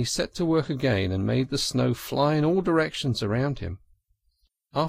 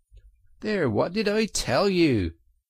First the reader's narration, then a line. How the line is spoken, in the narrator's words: exclaimed the Rat in great triumph